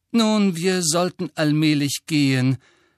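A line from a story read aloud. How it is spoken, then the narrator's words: Sighing. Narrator (German): seufzte Mrs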